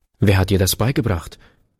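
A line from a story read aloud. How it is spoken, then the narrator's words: Man asks sharply. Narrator (German): fragte der Mann scharf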